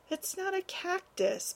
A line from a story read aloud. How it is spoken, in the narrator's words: Parrish sighed